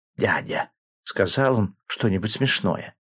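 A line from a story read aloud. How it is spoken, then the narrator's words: Whispered question. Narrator (Russian): она шепотом спросила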